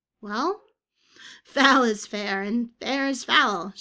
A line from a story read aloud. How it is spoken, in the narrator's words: giggled